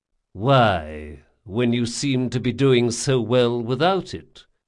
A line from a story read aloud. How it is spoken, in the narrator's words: Locke sighed